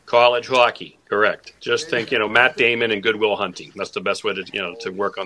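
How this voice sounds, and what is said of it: Boston accent. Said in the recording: “A little Boston twang there... I grew up with the Boston accent”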